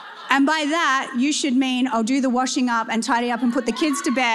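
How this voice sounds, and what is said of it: Usual voice. Nothing is said of it.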